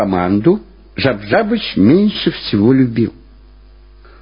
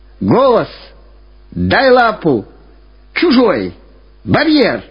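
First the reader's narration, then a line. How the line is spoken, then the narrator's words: Constant shouting. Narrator (Russian): Все время кричал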